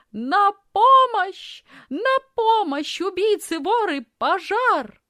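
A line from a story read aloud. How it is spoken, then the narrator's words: Loud screaming. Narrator (Russian): громко закричала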